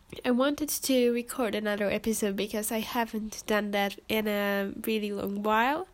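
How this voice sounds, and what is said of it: Congested, sick-sounding voice. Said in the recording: “I believe you can all hear that I am not completely healthy. I caught cold, and yeah, I have a running nose ... my voice is different”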